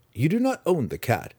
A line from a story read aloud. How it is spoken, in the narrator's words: Drizzt said calmly